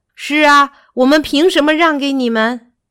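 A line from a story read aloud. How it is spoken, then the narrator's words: Agreeing shout. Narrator (Chinese): 另一头牛也表示同意，喊道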